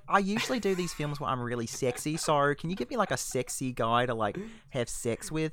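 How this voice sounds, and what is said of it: Pretty good put-on Australian accent. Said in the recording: “That's a pretty good Australian accent there.”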